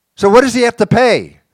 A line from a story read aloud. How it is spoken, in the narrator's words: Someone shouted out